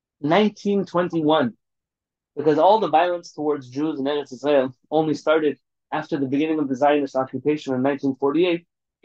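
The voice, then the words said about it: Sarcastic delivery. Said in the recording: “That was sarcastic,”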